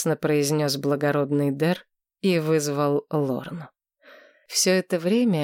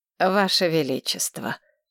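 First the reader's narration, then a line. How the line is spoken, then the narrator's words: Cold. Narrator (Russian): холодно произнесла Мора Тасна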